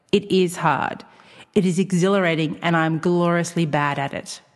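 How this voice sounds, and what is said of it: Careful read-aloud reading voice. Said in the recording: “in my best reading voice”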